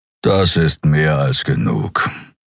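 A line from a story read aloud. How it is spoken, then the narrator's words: Growling. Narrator (German): knurrte er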